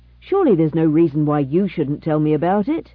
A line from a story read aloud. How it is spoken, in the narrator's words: he exclaimed